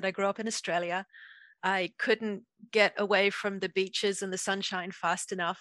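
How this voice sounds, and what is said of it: Noticeable accent. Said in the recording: “as you can probably hear from my accent.”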